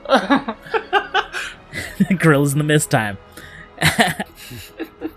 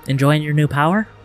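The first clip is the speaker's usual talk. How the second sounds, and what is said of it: Whispered character voice. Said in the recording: “as you hear a whisper from all around you.”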